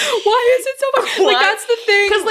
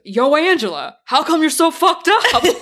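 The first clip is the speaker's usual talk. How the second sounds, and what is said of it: Put-on New York accent. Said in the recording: “in a very, like, New York accent”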